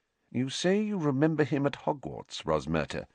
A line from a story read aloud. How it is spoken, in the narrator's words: murmured Professor McGonagall